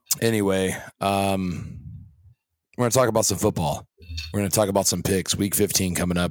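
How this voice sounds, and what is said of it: Hoarse, worn-out voice. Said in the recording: “I'm losing my voice. ... I sound like I've maybe done some, been in a football game or something ... I think work is starting to do a toll on my voice”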